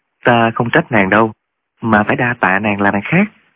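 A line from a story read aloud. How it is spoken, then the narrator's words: Moved, gentle. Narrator (Vietnamese): Trương Thúy Sơn cảm động lắm, dịu dàng nói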